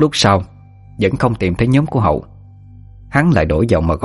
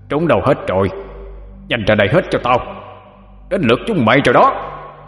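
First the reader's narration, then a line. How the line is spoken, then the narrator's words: Frenzied screaming. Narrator (Vietnamese): Hắn điên cuồng mà gào lên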